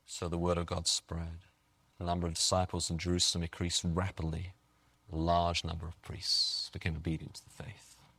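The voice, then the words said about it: English accent. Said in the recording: “in case you haven't noticed, I am English... how much they like my accent... he has an English accent”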